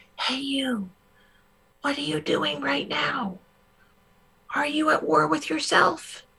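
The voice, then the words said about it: Whispering voice. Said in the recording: “other times, it's just whispering.”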